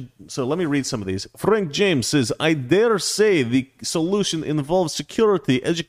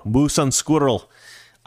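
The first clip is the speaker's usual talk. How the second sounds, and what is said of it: Put-on Russian accent. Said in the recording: “I think I do a better Russian accent than Valerie.”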